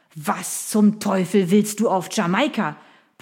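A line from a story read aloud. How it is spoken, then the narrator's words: Blustering. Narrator (German): polterte Sir William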